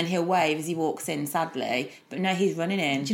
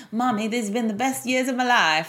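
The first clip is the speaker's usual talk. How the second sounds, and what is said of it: Put-on American accent. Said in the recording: “like in an American accent.”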